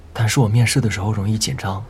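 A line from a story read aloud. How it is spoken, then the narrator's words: Soft sigh. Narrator (Chinese): 孟依微微叹了一口气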